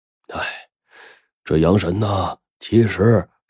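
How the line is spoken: Old man sighing. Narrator (Chinese): 山有老汉叹了口气

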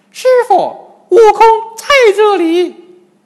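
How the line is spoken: Loud reply. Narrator (Chinese): 金蝉老妖大声答应

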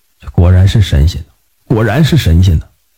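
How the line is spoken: Old craftsman murmuring. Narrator (Chinese): 有一位老工匠…嘴里还喃喃的说道

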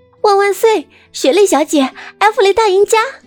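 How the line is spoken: Shouted. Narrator (Chinese): 有人喊道

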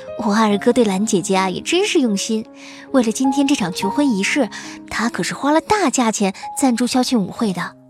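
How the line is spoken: Smiling. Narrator (Chinese): 叶晚清笑着对他说

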